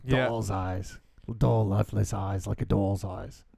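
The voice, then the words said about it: Bad Captain Quint impression, Yankee accent. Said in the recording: “I'm going Captain Quint from Jaws ... I don't even know what that accent was. That was a terrible accent. ... It sounded like a Yankee.”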